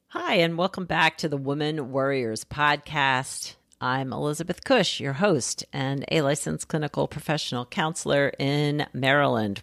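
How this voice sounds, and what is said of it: Slightly scratchy voice. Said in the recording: “My voice is a little scratchy today. It's just allergies, I think. ... not feeling like I have my usual voice, my usual speaking voice.”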